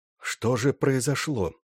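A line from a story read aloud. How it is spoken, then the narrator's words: Even but worried whisper. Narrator (Russian): ровным, хотя и озабоченным голосом прошептал любовник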